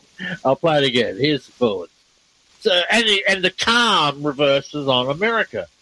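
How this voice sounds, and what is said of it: Speaks with a noticeable accent. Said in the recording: “It's my accent. You should know my accent.”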